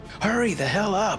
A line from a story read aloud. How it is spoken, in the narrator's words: yelled Luke